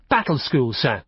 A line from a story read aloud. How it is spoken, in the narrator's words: Horace said firmly